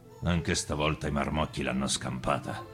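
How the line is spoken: Muttered. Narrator (Italian): borbottò

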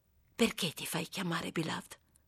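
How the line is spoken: Whisper. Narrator (Italian): sussurrò

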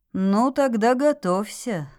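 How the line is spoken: Sighing father. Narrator (Russian): вздохнул папа

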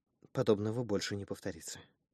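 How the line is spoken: Whisper. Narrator (Russian): прошептала

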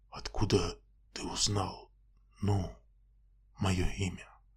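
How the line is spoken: Near whisper. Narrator (Russian): Крейвен почти прошептал

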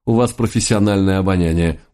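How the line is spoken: Respectful snort, mentor. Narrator (Russian): уважительно хмыкнул мой наставник

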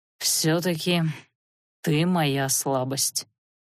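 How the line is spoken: Soft. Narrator (Russian): мягко произнес он

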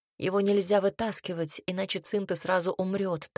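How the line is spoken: Plain. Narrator (Russian): так сказал Альберт

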